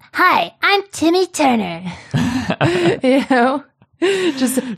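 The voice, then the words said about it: Imitates Timmy Turner cartoon voice. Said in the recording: “Timmy Turner sometimes. I have to see how to do his voice ... my Timmy Turner impression”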